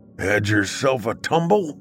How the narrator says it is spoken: asked in a gravelly voice

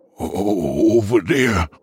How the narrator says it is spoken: Lemon Cake stuttered

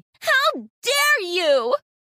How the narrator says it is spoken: Sarah spluttered

